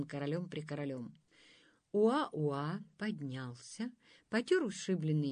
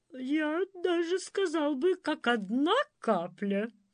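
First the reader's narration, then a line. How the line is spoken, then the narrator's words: Not very cheerful. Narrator (Russian): почему-то не очень радостно сказал принц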